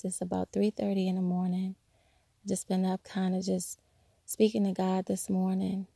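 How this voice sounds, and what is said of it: Rough, strained early-morning voice. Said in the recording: “Forgive my voice,”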